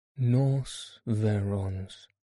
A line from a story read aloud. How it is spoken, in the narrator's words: answered Holmes calmly